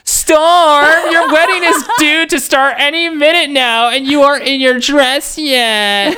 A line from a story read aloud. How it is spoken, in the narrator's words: he whined petulantly